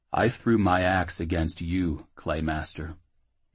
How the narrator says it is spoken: Jackal said gravely

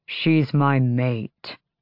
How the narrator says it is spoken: Rowan growled

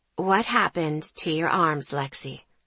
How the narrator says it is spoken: She asked gently

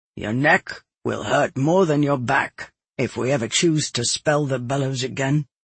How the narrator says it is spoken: my father said quietly

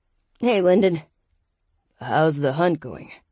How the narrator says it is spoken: Lyndon asked in a deep, gravelly voice

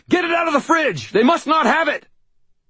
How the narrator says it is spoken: I shouted

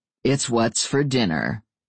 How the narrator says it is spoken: Adam said dryly

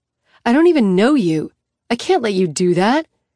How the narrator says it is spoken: she snaps

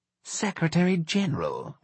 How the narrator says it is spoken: whispered Charles

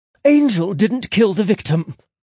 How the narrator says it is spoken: Millie snapped

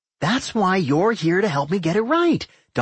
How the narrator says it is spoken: Doc said cheerfully

